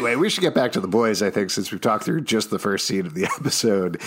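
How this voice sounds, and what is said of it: Usual voice. Nothing is said of it.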